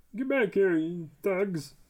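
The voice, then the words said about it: Cartoon Mountie character voice. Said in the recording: “Is that what he sounded like?... if I can do that voice”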